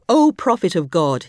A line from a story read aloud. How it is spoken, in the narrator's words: he cried